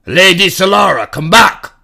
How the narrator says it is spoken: Riffin yelled

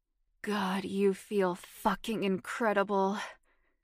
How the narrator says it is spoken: Stephen moaned

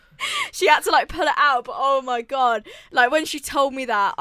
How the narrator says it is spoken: I cried laughing

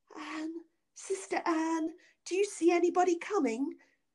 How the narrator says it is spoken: said his wife, and then cried out very softly

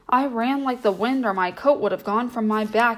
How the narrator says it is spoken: he cried

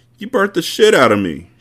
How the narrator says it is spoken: she whined

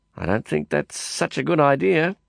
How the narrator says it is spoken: I mumbled, under a tight smile

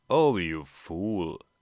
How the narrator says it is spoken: said she

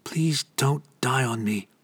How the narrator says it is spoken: she whispered, her voice faint

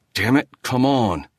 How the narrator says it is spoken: he muttered

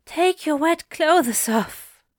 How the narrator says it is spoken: he panted

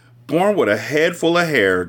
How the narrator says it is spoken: Jolene shouted to her husband

